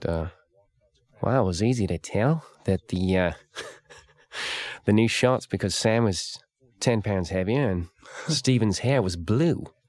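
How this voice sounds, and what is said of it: Imitates another person's voice. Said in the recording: “That's a terrible Eric Bana imitation”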